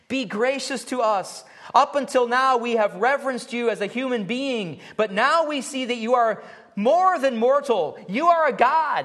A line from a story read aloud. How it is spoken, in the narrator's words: his flatterers called out from various directions